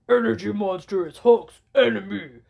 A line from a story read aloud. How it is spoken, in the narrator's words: Hulk growled